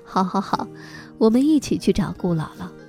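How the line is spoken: Crowd laughing loudly. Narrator (Chinese): 大家轰然大笑说

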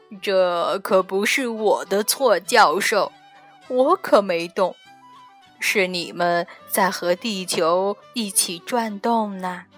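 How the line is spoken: Laughing. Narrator (Chinese): 太阳先生笑着回答

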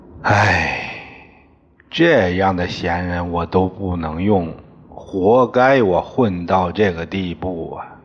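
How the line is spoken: Long sigh. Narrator (Chinese): 一姑不由得长叹一声

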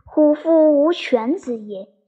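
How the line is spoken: Sighing. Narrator (Chinese): 先主叹之，叹曰

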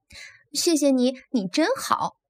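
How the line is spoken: Smiling. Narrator (Chinese): 他笑着对乡下老鼠说

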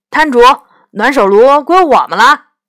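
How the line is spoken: Shouting. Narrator (Chinese): 杨永乐大叫

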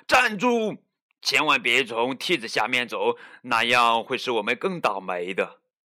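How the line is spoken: Loud shout. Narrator (Chinese): 小胖墩儿高声喊道

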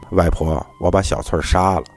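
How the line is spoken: Flat, indifferent. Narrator (Chinese): 小丽淡淡的说

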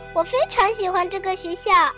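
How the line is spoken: Hurried. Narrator (Chinese): 又急忙加上一句

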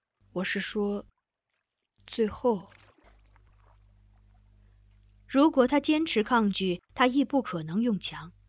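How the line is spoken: Low voice after cough. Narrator (Chinese): 掩饰性的轻咳两声，他又低声问

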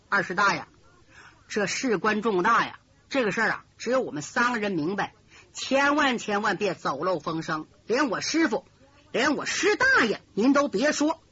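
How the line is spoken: Hushed voice. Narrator (Chinese): 缺德十八手李明压低嗓音说

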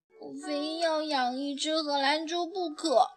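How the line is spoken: Sulky soft muttering. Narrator (Chinese): 乐雅撇了撇嘴，轻声嘟囔说

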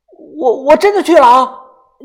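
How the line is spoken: Calling out. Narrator (Chinese): 豆芽仔又探头进来喊道

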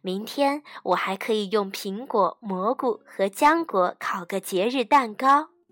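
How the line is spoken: Mother speaking with a smile. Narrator (Chinese): 妈妈笑着说

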